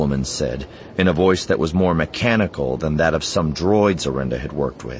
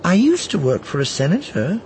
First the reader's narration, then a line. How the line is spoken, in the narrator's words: Arenda said brightly